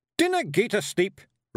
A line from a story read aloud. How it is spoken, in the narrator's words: Rob Anybody shouted